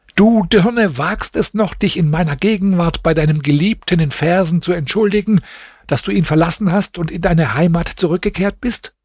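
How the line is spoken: Furious screaming. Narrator (German): Nur al-Huda schrie voller Wut ihre Schwester an

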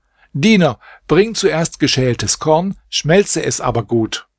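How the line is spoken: Master of the house calling. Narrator (German): rief der Hausherr

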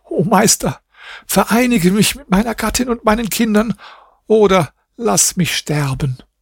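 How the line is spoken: Sobbing cry. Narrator (German): rief schluchzend

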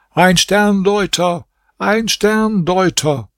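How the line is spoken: Repeated calling out. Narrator (German): Kamr Essaman rief zum dritten Mal

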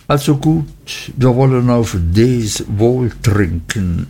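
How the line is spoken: Embarrassed hesitant speech. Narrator (German): Nach langem verlegenen Erröten, Stottern und Leugnen sagte ich endlich

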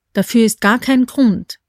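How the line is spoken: Plain. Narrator (German): sagte K

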